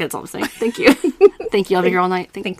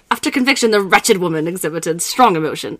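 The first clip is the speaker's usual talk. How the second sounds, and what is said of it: Put-on English accent. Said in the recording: “say that in an English accent”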